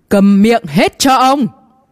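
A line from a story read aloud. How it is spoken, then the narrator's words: Deafening old man's shout. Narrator (Vietnamese): Sau tiếng hét to này của lão ta, lỗ tai của đám võ giả chiếu thần cảnh này lập tức rung lên ong ong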